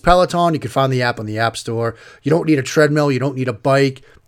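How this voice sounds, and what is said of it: Fast speech, Boston accent. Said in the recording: “I talk fast and have a Boston accent”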